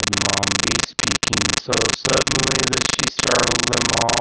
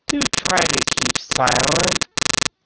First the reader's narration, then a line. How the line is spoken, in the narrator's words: said nervously